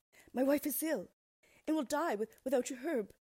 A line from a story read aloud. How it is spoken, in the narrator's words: pleaded the man